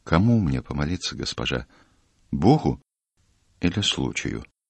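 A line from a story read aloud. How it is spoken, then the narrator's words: Quiet question. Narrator (Russian): Матрос тихо ее спросил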